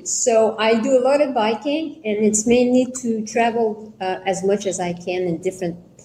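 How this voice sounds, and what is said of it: Quebec French accent in English. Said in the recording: “originally from Quebec, so it's so easy and uh, with the accent.”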